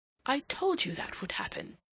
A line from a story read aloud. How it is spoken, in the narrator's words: he exclaimed